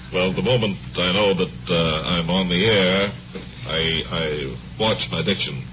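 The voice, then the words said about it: Comic character with foreign accent. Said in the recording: “You speak very beautiful English. ... And my accent, because sometimes it slips.”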